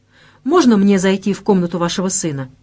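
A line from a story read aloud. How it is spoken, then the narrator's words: Hurried question. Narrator (Russian): торопливо спросила Вера, стараясь успеть до того, как прольется новый водопад слез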